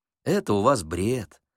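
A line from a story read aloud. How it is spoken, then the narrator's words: Kind gentle speech. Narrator (Russian): ласково сказала докторша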